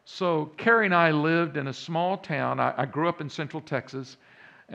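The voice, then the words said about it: Slight Texas accent. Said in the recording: “many of you hear that accent now in the background a little bit. Yeah, that's a Texas accent.”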